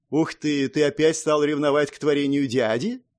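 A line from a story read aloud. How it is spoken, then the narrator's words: Snide mocking question. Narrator (Russian): ехидно спросила Эмма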